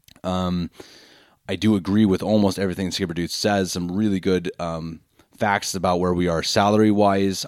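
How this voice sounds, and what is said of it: Hoarse, failing voice. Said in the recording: “My voice is out. I've been sick ... before my voice is unfortunately gone.”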